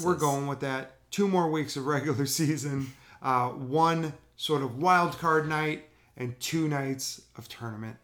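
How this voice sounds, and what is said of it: Slightly lost, strained voice. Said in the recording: “I kind of lost my voice a little bit tonight. I may have sounded a little bit angry”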